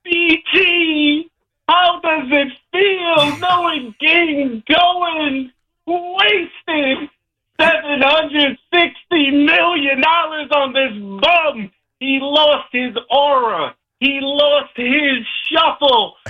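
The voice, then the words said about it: Impression of Sal Licata. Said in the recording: “in my best Sal Licata voice ... That's pretty good. That's not a bad Sal”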